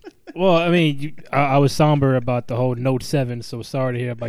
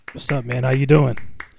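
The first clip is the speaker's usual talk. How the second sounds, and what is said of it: Low, sultry bedroom voice. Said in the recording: “Is that your bedroom voice?”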